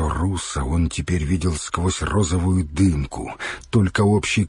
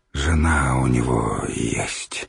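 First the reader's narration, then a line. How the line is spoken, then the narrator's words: Strained, forced out. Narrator (Russian): с усилием выдавил пчелка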